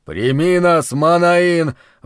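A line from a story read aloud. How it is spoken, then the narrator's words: Breathed out. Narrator (Russian): выдохнул капитан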